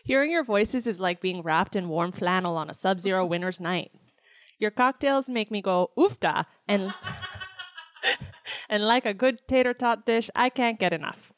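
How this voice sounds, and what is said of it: Put-on Minnesotan accent. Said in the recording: “That's my Minnesotan accent. ... It might have been a little bit more Wisconsin.”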